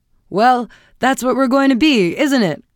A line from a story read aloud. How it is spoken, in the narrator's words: cried her husband gaily